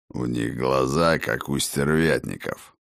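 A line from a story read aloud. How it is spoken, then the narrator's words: Grumbling. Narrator (Russian): проворчал Хрофт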